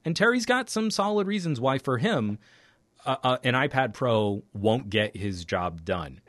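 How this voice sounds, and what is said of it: Slightly fuzzy, strained voice. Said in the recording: “My voice is getting a little fuzzy here”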